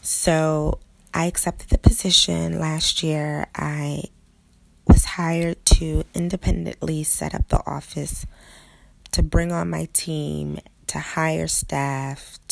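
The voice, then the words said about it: Hoarse voice. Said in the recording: “I'm a little hoarse um, because I've been screaming my lungs out all weekend”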